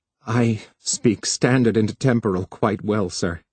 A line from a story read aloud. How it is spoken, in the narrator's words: Harlan, brought to the sudden brink of hysterical laughter, said carefully